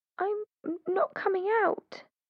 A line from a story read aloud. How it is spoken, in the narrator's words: she whimpered in a trembly voice